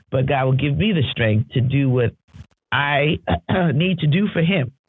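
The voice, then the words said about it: Strained, stretched voice. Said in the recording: “my voice is a little stretched because I've been moving about”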